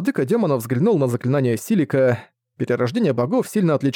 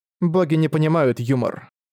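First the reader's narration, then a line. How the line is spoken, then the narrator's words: Dry. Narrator (Russian): сухо сказала Мелития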